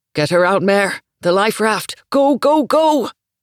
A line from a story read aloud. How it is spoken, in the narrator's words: her papa shouting